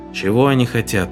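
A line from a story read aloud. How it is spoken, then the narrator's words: Weary question. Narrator (Russian): устало спросил Моррисон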